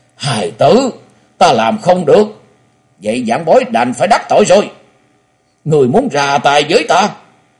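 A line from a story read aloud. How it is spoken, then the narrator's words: Loud, agitated, trembling. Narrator (Vietnamese): Quái nhân che mặt thân hình run rẩy, cho thấy nội tâm của hắn vô cùng kích động, lớn tiếng nói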